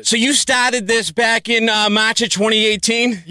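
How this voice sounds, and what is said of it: Put-on Boston accent. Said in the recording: “I'll do this in a Boston accent.”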